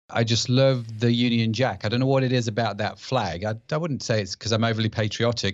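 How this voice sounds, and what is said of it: British accent. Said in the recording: “I live in the UK, as you can probably tell by my accent.”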